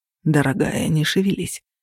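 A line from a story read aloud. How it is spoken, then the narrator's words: Soft, coaxing. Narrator (Russian): произнес он мягко, словно уговаривая ребенка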